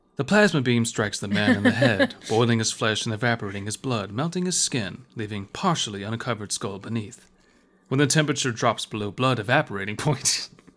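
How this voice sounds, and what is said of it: Nature documentary narrator impression. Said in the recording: “We should have read that in a David Attenborough accent. Here, I'll redo some of it.”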